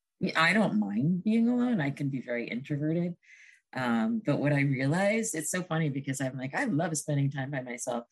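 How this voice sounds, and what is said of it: Slightly hoarse, strained voice. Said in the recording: “I've been singing and my voice is a little shot”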